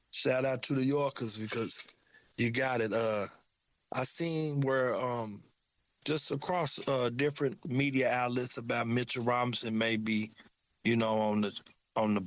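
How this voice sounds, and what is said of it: Southern US country accent. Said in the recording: “I got my country accent”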